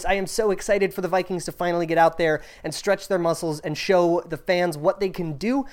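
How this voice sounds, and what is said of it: Hyped, excited delivery. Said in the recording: “hear the hype in my voice”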